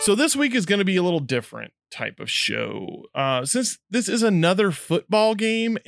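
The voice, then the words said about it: Kentucky accent. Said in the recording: “even with the Kentucky accent”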